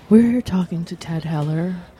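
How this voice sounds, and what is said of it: Mock NPR radio announcer voice. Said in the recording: “That's her NPR voice.”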